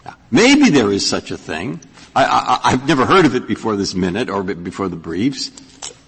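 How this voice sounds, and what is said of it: Incredulous, disbelieving tone. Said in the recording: “I'm suddenly incredulous about it from my tone of voice”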